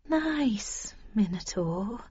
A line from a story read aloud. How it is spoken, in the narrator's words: said soothingly, slowly